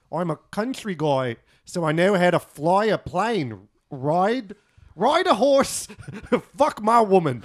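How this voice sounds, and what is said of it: Put-on Australian accent. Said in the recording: “Do you like Aussie accents? ... Also, good accent.”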